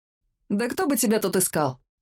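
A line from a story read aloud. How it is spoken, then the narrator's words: Scoffing snort. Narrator (Russian): фыркнул он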